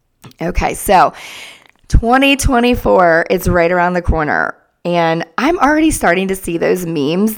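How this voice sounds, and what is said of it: Raspy, sick-sounding voice. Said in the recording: “thank you for enduring my voice ... I apologize for my raspy voice”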